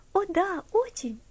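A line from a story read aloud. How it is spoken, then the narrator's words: Cheerful. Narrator (Russian): весело ответила Элси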